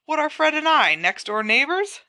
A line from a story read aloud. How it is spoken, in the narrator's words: said George indignantly